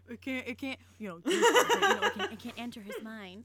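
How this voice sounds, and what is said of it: Imitates another person's voice. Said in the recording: “my impression of Madison”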